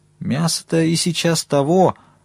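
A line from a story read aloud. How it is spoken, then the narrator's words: Timid objection. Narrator (Russian): робко возразил сторож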